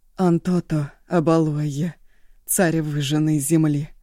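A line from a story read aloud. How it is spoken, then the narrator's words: Solemn, measured invocation. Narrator (Russian): Раздельно, торжественно возвала Янса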